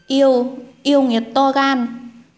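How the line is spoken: Terrified trembling outburst. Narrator (Vietnamese): Thái tử sợ hãi, toàn thân co giật, cố gắng trấn tĩnh thốt lên

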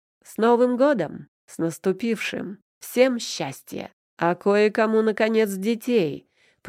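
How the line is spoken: Deep bass voice. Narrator (Russian): пробасил Аверин-старший

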